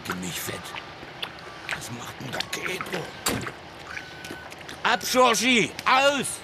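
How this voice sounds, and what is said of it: Heavy Saxon (Leipzig-area) dialect. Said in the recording (German): “aus Sachsen-Anhalt nahe Leipzig, wo man doch sehr ähnlich redet wie in Leipzig ... über den Dialekt da drin ... gerade am Anfang gibt es eine ziemliche Dialektbombe”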